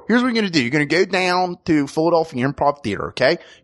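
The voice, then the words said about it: Put-on Philadelphia accent. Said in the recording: “you do a Philadelphia voice ... tell everybody the details about our show in Philadelphian”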